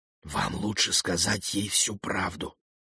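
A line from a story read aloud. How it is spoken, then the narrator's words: Whispered. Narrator (Russian): прошептал Гену вице-президент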